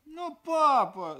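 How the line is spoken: Child whimpering. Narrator (Russian): захныкала дочь

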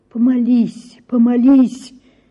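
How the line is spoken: Pleading, imploring voice. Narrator (Russian): говорил он каким-то просящим, умоляющим голосом

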